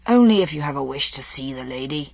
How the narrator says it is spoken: said Arthur with a sigh

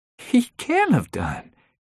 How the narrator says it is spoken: said with a nervous laugh

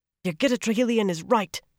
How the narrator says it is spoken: Avienda said fiercely

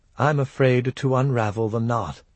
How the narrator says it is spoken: murmured

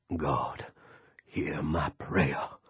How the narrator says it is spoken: Lester said in his growly, I'm really praying voice

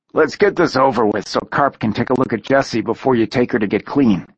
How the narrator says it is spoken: he said gruffly

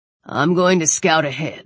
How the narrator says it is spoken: Weller said

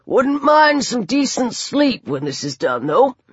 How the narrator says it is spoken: said in a strangled voice

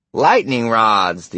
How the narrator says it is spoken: the old campaigner said and cackled

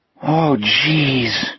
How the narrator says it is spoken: Jack groaned

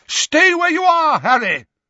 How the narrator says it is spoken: Dumbledore bellowed

